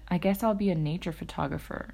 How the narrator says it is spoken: I said dryly

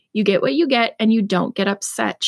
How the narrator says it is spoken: she said

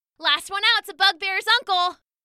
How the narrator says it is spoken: Hark shouted

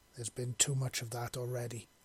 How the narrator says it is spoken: he said warningly

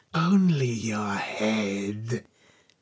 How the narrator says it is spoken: she said, with an evil hissing voice

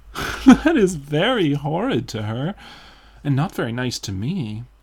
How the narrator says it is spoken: answered Dorian, laughing

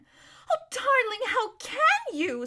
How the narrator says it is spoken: squeaked Lazarine

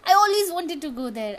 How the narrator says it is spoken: exclaim

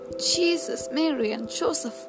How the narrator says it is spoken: yelped Rudy

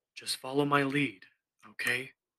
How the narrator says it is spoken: I whispered

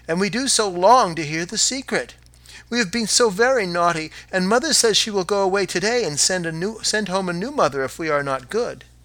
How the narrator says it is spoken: the children cried again

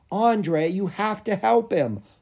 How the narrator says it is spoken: Lucas pleaded

